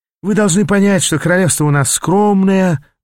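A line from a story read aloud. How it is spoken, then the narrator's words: Sighing treasurer. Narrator (Russian): вздохнул казначей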